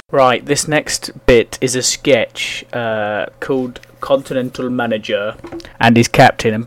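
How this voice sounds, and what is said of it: Usual voice. Nothing is said of it.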